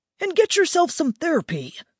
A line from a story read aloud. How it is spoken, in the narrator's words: added sharply